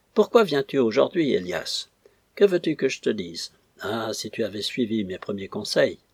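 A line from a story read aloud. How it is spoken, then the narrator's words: Rough-voiced question. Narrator (French): il lui demanda d'une voix rude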